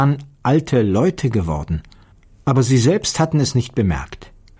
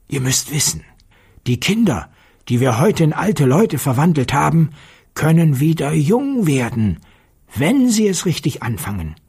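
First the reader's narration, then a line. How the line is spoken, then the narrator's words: Quiet voice. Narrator (German): sprach mit leiser Stimme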